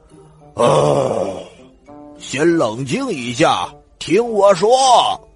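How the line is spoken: Loud roar. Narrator (Chinese): 他大吼一声

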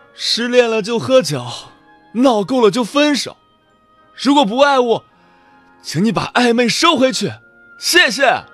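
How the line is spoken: Drunk, broken cry. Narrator (Chinese): 疯子又冲出家喝了很多酒，一个人坐在马路边，对着公路失声喊道

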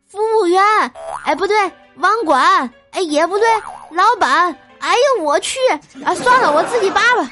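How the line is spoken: Anxious shout. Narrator (Chinese): 着急就喊道

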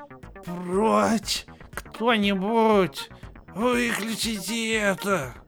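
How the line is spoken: Hoarse rasp. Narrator (Russian): Прохрипел Миссаж

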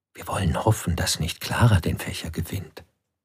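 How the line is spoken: Envious crowd whispering. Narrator (German): Die Ärmeren und Missgünstigen flüsterten

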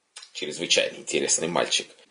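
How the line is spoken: Exclaiming. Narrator (Russian): восклицал изредка Берегов

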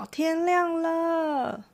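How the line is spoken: Excited shout. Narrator (Chinese): 柔一兴奋的 她大叫

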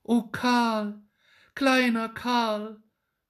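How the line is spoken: Sigh. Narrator (German): seufzte Gretchen

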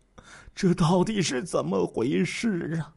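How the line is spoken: Sobbing uncontrollably. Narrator (Chinese): 得知这个消息，徐德新痛哭失声

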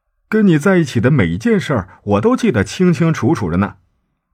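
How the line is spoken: Joking question. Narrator (Chinese): 开玩笑的问

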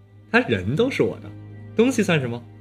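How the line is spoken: Smug laughing. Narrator (Chinese): 黄少天得意的笑

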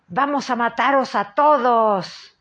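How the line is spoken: Loud yelling. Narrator (Spanish): vocifera

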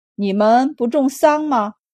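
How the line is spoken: Plain. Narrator (Chinese): 周五郎摇头道

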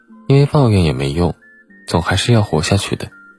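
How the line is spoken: Calm detached woman. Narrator (Chinese): 妇人淡淡的说

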